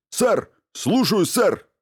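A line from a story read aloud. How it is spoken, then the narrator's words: Barked. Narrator (Russian): рявкнул он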